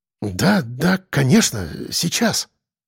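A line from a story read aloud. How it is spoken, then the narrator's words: Muttering. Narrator (Russian): Пробормотал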